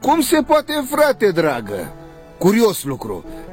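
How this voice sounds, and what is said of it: Usual voice. Nothing is said of it.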